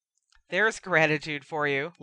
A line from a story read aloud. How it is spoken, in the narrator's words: laughed Sirius